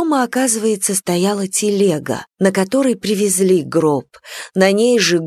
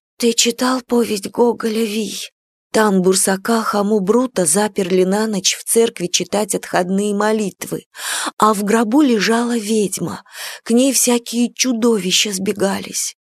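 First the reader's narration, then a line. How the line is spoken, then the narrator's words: Whisper. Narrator (Russian): Настя шептала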